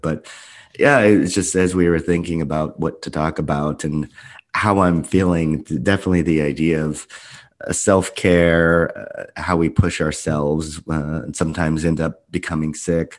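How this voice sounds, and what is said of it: Hoarse voice from sore throat. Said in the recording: “my voice is a little different today... it's mostly just a sore throat”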